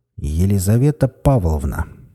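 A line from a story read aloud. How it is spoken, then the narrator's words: Stern, menacing. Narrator (Russian): грозно уставившись на доктора, начал подполковник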